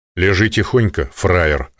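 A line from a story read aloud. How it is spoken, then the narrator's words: Menacing command. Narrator (Russian): распорядился грозно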